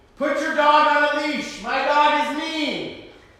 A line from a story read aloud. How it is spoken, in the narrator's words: the woman shout out to me